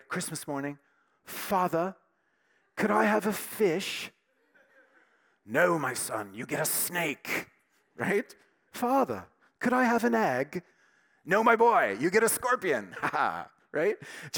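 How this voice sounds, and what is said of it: Put-on British accent. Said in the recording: “Here's my best British accent”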